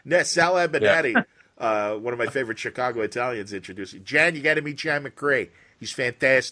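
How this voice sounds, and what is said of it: Chicago accent. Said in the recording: “you really do a good job of scrubbing your Chicago out, but it comes through there ... you really sounded like I was talking to someone from like Midnight Run”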